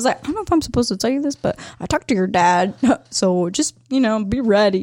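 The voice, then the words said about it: Imitation of a man's voice. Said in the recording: “that was a pretty good impression. ... I mean, I got to go a little deeper.”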